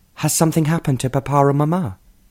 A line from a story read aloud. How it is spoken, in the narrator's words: she asked anxiously